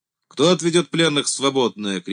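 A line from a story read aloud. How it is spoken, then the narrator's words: Shout. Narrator (Russian): крикнул Лобытов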